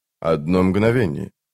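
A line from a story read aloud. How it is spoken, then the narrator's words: Muttered. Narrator (Russian): пробормотал он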